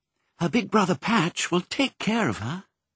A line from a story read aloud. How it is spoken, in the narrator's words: said Pongo soothingly, though he felt most unsoothed himself